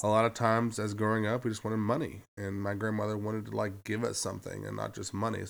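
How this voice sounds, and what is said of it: Congested, stuffy-nosed voice. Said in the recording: “I sound really terrible ... I'm congested”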